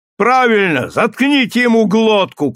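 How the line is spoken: Shout. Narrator (Russian): крикнул кто-то

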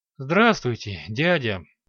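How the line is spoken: Weary. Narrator (Russian): не менее устало произнес граф

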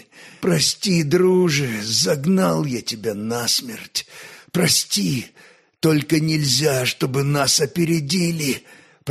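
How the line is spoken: Hoarse. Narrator (Russian): прохрипел гонец

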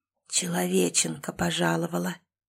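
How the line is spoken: Otherworldly ghostly voice. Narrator (Russian): потусторонним голосом произнес один из призраков

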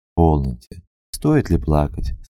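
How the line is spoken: Gentle, affectionate. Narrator (Russian): сказал он ласково

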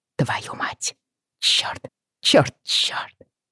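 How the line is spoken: Whispered under breath. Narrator (Russian): прошептала я себе под нос

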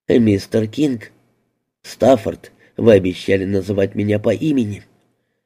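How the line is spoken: Serious tone. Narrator (Russian): Мэзи серьезным тоном произнесла

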